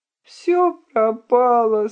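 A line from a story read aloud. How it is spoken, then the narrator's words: Whining. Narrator (Russian): скулил Бобковита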